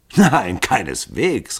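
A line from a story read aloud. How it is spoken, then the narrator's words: Calling out, laughing. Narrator (German): rief Hall lachend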